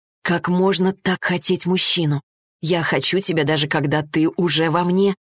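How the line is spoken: Embarrassed mutter. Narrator (Russian): пробормотала она и покраснела

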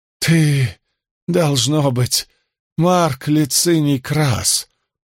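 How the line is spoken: Hoarse. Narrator (Russian): хрипло проговорил он

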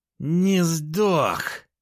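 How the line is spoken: Furious growl. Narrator (Russian): Яростно прорычала пилот двухметрового робота

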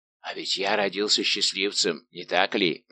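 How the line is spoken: Whisper. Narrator (Russian): прошептал Портос

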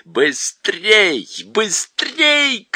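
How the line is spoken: Shouting. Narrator (Russian): кричала колдунья

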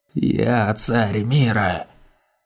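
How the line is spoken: Rasping pitiful creature. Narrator (Russian): Прохрипело жалкое, сгорбленное существо

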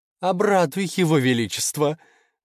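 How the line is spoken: Laughing. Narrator (Russian): засмеялась лиса

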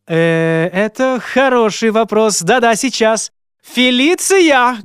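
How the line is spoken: Loud calling. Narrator (Russian): громко позвал Фернанд адъютанта Джейн

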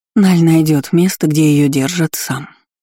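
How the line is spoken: Soft, smiling. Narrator (Russian): мягко улыбнулась Дисси

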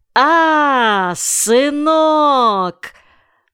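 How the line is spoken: Sudden shout. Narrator (Russian): Отчим вдруг, словно вспомнив что-то, закричал

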